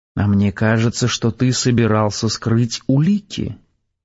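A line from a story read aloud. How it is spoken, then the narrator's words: Quiet menace. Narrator (Russian): тихо, но угрожающе произнес Костя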